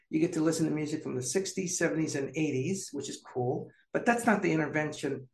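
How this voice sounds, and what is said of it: Calm, chill, steadily paced voice. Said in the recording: “listen to my tone of voice. It's pretty chill, it's pretty paced.”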